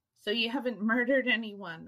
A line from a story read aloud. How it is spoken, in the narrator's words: I chuckled